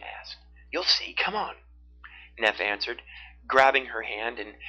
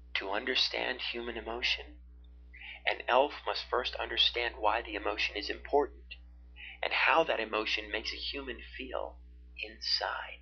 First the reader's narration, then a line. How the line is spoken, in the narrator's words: Neff said softly